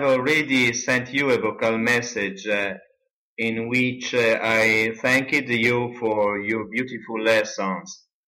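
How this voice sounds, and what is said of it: Strong Italian accent. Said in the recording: “they say that I have an Italian sound in my speaking ... he has a very strong Italian accent”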